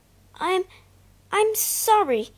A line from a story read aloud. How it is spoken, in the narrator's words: he stammered